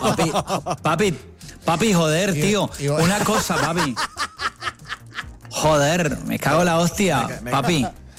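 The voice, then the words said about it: Mixed Spanish regional accents. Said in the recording (Spanish): “Estás mezclando los acentos”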